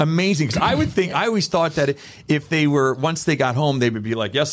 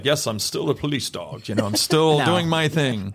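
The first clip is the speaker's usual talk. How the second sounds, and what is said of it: Playful voice imitating a police dog. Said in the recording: “my police dog impression... Pretty good... It was exact.”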